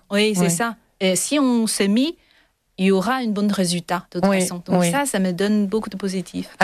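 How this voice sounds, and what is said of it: Slight foreign accent in French. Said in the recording (French): “vous parlez extrêmement bien français. ... Avec votre petit accent adorable. J'adore les petites nuances”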